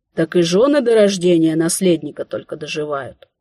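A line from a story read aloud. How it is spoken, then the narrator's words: Sighing woman. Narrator (Russian): вздохнув, собеседница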